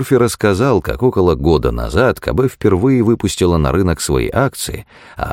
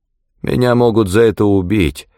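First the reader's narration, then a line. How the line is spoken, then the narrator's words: Uncertain drawl. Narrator (Russian): неуверенно протянул Мёрфи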